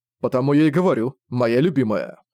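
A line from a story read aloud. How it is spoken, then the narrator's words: Plain. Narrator (Russian): сказал Зориан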